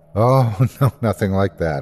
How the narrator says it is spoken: I laughed

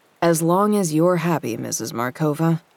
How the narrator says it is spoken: I thought sarcastically

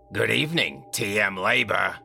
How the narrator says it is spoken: she said with a raspy voice

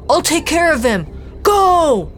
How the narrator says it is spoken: Dante shouted

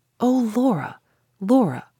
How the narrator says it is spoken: I said, not angrily, not reprovingly, with nothing but sorrow in my voice, and nothing but sorrow in my heart

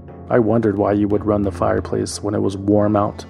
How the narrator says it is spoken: Duckworth said

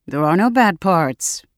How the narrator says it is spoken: I said dryly

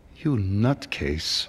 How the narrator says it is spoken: said in a shaky voice

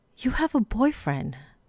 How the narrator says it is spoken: she whispered

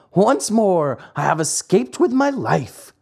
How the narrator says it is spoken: he cried

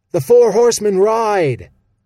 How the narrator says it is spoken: bellowed Stick, his voice breaking so loudly

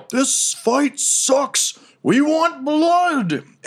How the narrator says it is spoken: From up top, you hear someone yell

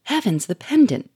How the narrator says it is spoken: cried Sonia

